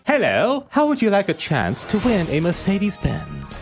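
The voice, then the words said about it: Put-on posh British accent. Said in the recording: “What's up with the accent? ... Just putting on a posh accent”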